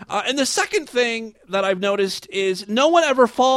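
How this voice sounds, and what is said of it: Usual voice. Nothing is said of it.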